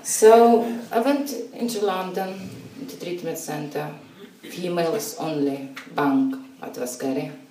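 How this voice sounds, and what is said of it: Strong Russian accent. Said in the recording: “my accent ... It's very strong Russian accent.”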